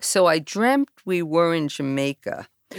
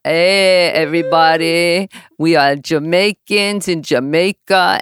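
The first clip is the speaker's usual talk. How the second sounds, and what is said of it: Bad put-on Jamaican accent, rolled R's. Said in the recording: “I've got the worst Jamaican accent ... I'm like, no, it's not quite ... You're rolling your R's.”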